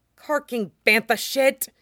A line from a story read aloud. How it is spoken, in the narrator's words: Echo hisses